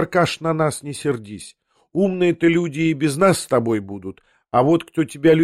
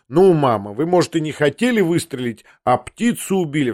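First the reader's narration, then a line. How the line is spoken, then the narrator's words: Laughing exclamation. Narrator (Russian): вскричал я, тоже рассмеявшись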